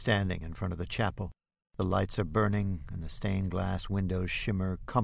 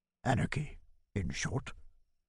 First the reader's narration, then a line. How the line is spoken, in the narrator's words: Bodendieck replies, softly and with sudden sharpness